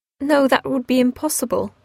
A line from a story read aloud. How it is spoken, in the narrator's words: replied Eleanor